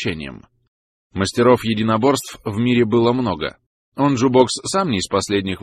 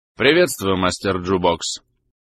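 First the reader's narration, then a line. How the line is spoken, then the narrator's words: Cold, detached. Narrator (Russian): Лаган говорил холодно и отстраненно, будто и не знал собеседника много лет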